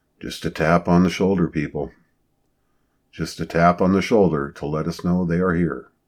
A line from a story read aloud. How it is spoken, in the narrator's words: in a soft voice he said